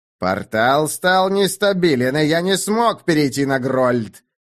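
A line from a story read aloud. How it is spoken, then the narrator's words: Growling. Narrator (Russian): прорычал Льер Керен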